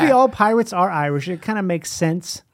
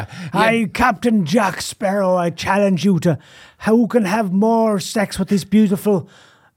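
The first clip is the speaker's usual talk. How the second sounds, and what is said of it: Pirate voice drifting Irish. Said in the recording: “What is the pirate voice even? A pirate voice is like, it's almost like Irish ... The Irish accent will take over”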